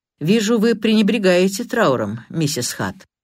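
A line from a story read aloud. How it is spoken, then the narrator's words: Dry. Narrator (Russian): инспектор Карри сухо произнес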